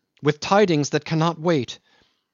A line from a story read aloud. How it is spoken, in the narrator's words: he cried at the door